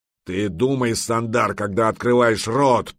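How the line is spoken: Growling. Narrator (Russian): прорычал медвежья Лапа

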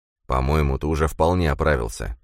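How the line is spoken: Grumble. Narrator (Russian): проворчал незнакомец

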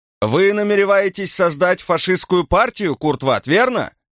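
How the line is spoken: Shouted question. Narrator (Russian): выкрикнул журналист

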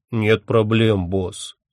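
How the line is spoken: Deep bass voice. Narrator (Russian): пробасил он

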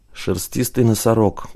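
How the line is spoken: Muttering. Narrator (Russian): пробормотала Тая

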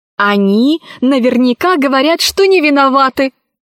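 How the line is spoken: Exclaimed. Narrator (Russian): воскликнула Кора

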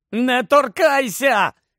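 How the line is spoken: Uncontrolled shout. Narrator (Ukrainian): крикнув Гаррі, котрий не в змозі був стриматися

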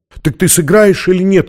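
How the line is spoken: Shouted. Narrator (Russian): крикнула она

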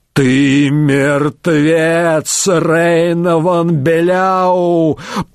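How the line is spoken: Furious roar. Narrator (Russian): проревел бледный от ярости Вольфгер Стерча

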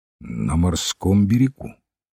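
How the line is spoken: Quiet answer. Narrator (Russian): большой тихо ответил

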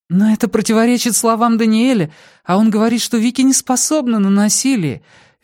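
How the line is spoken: Agitated interruption. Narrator (Russian): взволнованно перебила Эллен

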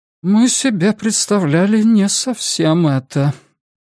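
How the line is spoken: Sighing. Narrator (Russian): она вздохнула

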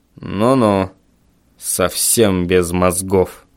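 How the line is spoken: Grumbling. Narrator (Russian): проворчал отец

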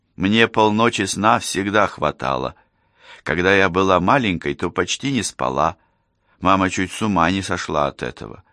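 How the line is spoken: Laughing. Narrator (Russian): рассмеялась Мария

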